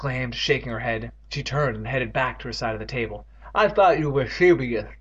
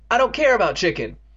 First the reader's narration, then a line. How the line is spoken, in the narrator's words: Evan shouted, losing control